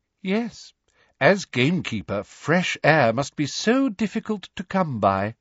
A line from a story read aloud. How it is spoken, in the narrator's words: said Umbridge sweetly